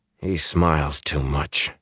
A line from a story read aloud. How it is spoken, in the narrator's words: he muttered